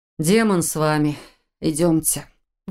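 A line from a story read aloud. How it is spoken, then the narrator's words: Exhaled words. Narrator (Russian): выдохнул Фарлак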